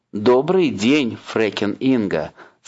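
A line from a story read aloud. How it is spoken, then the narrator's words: Plain. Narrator (Russian): сказал он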